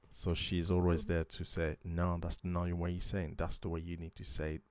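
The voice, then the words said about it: French accent in English. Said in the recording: “my French accent”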